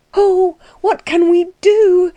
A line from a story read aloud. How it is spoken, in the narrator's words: She cried